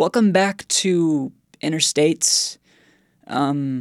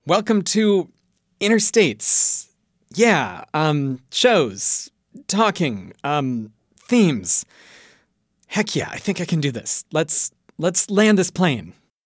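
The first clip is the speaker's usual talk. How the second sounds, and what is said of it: Impression of an absent co-host. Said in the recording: “What would Alex do? ... I think I can do a decent impression.”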